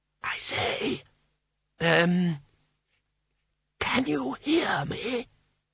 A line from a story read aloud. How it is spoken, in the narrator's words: whispered